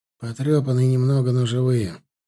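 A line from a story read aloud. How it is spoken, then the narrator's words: Tired. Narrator (Russian): устало проговорил Стас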